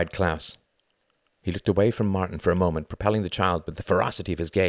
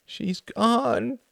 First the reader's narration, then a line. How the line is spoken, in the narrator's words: wailed